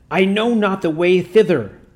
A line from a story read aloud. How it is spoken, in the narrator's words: groaned the demon